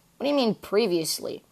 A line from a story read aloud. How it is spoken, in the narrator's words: Nathan sighed